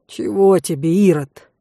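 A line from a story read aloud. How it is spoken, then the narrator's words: Pleading whine. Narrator (Russian): умоляюще проскулил волчище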